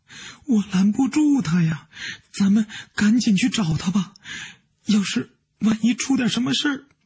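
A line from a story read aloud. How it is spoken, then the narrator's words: Crying. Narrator (Chinese): 王娟哭着说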